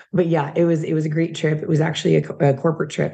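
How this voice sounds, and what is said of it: Hoarse, strained voice. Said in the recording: “losing my voice before I even left ... I keep talking and it's not getting any better. So I'm a little hoarse”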